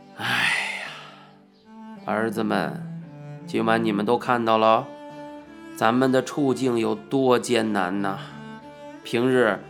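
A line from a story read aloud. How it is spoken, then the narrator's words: Sighing warning. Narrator (Chinese): 叹了一口气，告诫我们道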